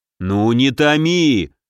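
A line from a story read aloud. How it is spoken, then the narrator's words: Eager growl. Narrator (Russian): заинтересованно рыкнул великий князь на сына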